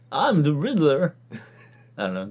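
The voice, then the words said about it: Imitates another person's voice. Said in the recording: “That's my Walken impression.”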